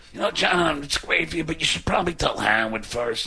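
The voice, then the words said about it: Imitates another person's voice, badly. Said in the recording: “it's a bad Artie impression, I know”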